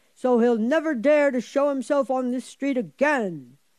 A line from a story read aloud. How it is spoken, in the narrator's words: cried the oldest and strongest of the boys